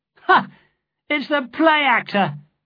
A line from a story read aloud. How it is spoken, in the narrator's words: cried